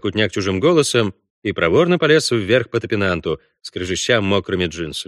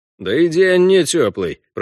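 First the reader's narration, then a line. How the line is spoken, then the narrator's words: Grumbled. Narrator (Russian): проворчал Гайдабура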